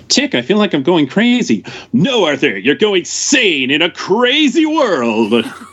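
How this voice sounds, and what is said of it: Imitates a cartoon character's voice. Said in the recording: “my The Tick impression.”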